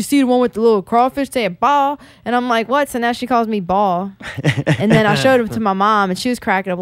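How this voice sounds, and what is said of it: Usual voice. Nothing is said of it.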